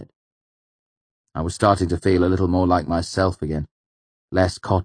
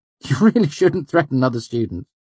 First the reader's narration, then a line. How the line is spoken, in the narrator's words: he said with a little laugh, as if trying to pass my comment off as a joke